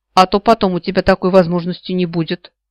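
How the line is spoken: Snorted. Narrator (Russian): фыркнула я

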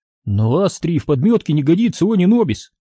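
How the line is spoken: Surprised exclamation. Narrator (Russian): удивленно воскликнул Оби-Ван

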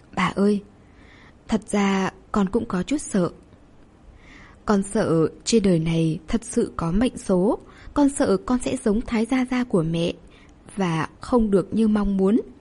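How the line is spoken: Gentle, childlike. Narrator (Vietnamese): Nghe Thường nằm áp bên bà như một đứa trẻ, nhẹ nhàng nói

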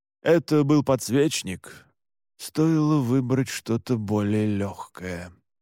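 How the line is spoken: Thoughtful mumble. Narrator (Russian): задумчиво пробормотал Александр

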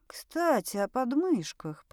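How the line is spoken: Whisper. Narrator (Russian): прошептала

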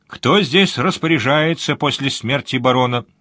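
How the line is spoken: Loud question. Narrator (Russian): громко спросил Сварог

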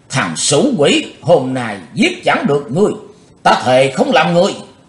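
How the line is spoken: Old man's fierce roar. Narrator (Vietnamese): cụ Như Trụ gầm vang

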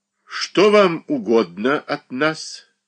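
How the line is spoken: Stern question. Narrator (Russian): Строго спросил

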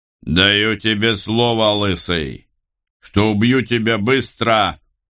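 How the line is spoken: Roared from a distance. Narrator (Russian): проревел голос со стены

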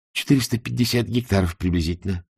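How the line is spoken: Plain. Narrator (Russian): сказал он

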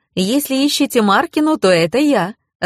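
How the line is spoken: Ringing young voice. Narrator (Russian): звонким молодым голосом ответила она

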